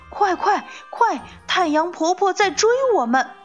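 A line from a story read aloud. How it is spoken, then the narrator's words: Breathless. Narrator (Chinese): 喘着气说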